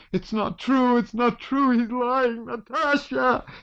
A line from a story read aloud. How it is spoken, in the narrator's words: she shrieked